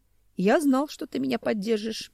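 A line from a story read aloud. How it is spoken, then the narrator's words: Grimly pleased. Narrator (Russian): мрачно обрадовался Семен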